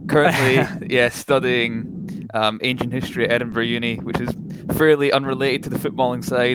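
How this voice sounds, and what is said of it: Scottish accent. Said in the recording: “accent-wise, you can probably pick it up. I'm Scottish.”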